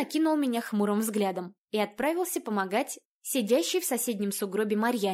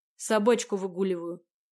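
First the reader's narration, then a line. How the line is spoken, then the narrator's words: Muttered. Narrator (Russian): буркнул преподаватель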